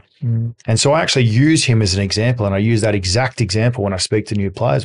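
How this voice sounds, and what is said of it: Australian accent, mumbled, fast speech. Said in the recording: “I mumble. B, I'm Australian, so I've got a different accent. And when I get excited, I speak faster.”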